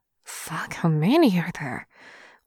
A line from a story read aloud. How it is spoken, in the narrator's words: Wei Wuxian mumbles